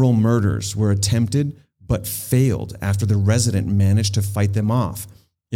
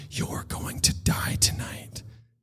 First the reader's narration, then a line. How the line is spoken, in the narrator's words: Kathy liked whispering into their ears